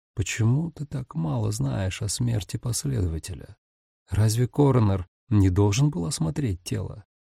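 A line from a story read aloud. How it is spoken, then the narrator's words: Woman, somewhat thoughtful. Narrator (Russian): Она несколько задумчиво произнесла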